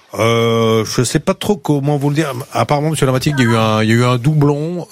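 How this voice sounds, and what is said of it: Put-on accent. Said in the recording (French): “J'avais pris un accent, j'avais tout.”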